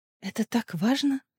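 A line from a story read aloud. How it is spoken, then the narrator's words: Quiet question. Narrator (Russian): тихо спросила Ириана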